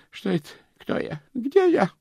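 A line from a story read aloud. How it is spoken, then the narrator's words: Moaning. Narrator (Russian): простонал Стоули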